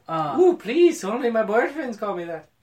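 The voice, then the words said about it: Failed German accent drifting Irish. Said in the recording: “That was supposed to be German, but I think I turned into a leprechaun there at the end. I cannot do accent.”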